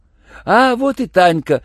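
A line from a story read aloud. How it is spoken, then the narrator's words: Joyful clamor behind door. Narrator (Russian): радостно заголосили под дверью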